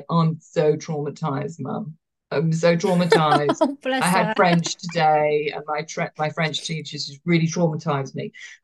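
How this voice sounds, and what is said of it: Affected, melodramatic voice. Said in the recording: “put on this like affected voice.”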